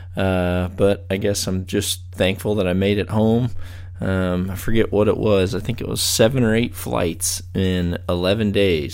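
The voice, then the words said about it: Hoarse, congested voice. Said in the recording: “I'm probably sounding a little bit more hoarse than normal... I've got it. So I'm a little bit stopped up.”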